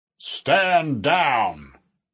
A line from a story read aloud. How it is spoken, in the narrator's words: A booming voice echoed across the gym